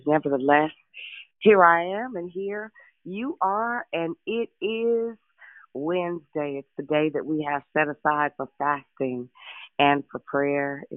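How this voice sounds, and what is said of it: Voice sounds a little off. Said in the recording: “excuse my voice. It's been a little scattered for a couple of days.”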